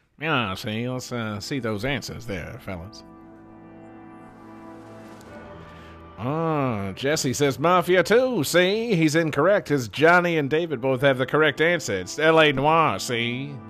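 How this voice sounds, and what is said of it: Edward G. Robinson gangster impression. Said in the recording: “that voice ... sounding like Edward G. Robinson”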